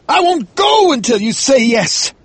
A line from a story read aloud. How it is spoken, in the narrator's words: Gardner cried